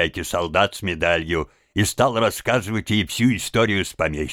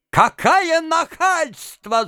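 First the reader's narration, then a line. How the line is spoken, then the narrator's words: Shrieking. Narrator (Russian): завизжал он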